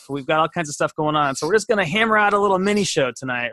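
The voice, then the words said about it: Congested, sick-sounding voice. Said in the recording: “sorry for my voice. I got a sinus infection.”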